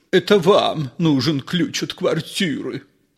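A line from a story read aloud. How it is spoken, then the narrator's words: Babbling. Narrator (Russian): пролепетал Ипполит Матвеевич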